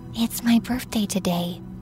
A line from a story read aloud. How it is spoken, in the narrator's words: I whispered to Mrs